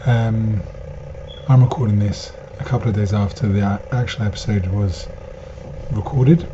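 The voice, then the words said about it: Hoarse, nearly lost voice. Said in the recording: “I've lost my voice”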